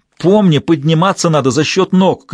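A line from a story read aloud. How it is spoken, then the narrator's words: Shouted from below. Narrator (Russian): крикнул снизу Кендалл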